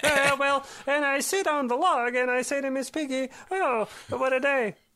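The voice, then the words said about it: Kermit the Frog voice. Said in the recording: “my Kermit the Frog imitation... It just turns into Kermit the Frog... the more Kermity it gets”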